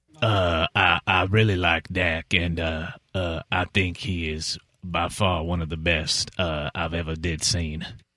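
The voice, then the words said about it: Overdone forced Southern accent impression. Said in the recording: “too much of a big forced southern accent. It's kind of a little bit more gravelly and a little bit more. You got to give more enunciation on the words.”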